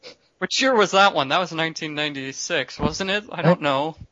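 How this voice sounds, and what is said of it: Usual voice. Nothing is said of it.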